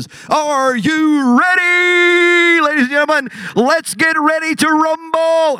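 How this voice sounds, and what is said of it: Booming boxing announcer voice. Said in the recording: “in your best Michael Buffer voice, the guy that always leads off the boxing matches”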